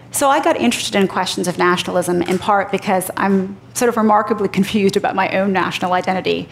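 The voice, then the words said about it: American accent. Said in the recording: “I sound American”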